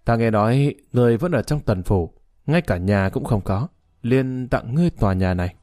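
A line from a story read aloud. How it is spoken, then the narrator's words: Smiling. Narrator (Vietnamese): Thái Thao mỉm cười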